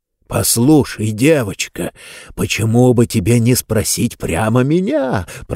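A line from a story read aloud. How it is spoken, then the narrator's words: Muffled growl, then laughter. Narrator (Russian): прорычал из-под стола Нетвердайбл и захохотал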